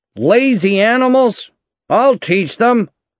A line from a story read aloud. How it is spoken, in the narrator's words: shouted Hal